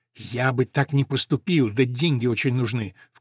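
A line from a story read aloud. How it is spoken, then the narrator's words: Apologetic whisper. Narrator (Russian): в качестве оправдания зашептал Хопкинс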